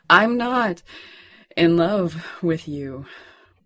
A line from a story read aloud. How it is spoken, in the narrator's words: Sherlock said in the panting aftermath of his orgasm